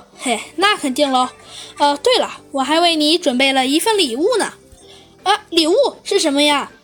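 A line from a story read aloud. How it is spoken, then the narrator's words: Slight smile. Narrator (Chinese): 猴子警长微微一笑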